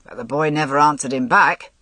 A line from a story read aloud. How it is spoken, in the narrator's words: said Gawain gruffly